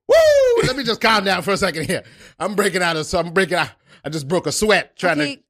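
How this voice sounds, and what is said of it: Out of breath, panting speech. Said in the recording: “You seem out of breath.”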